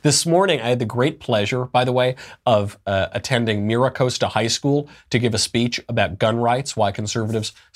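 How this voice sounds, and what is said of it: Sick, congested voice. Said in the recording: “You can probably hear in my voice, I'm still sick and tired ... kept me literally sick and tired and probably given me a sinus infection”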